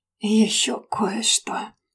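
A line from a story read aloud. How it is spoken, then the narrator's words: Hoarse moan. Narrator (Russian): Осипшим голосом простонал мужчина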